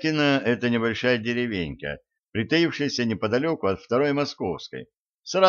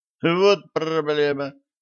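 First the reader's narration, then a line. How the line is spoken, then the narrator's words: Snorting. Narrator (Russian): хмыкнул Гена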